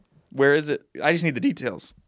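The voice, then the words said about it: Voice cracks mid-sentence. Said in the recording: “Your voice cracked.”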